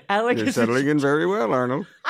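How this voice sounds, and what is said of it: Old white guy voice. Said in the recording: “my old white guy impression”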